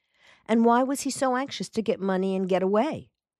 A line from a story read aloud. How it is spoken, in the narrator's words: Mason asked